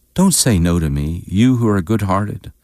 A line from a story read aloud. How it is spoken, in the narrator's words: exclaimed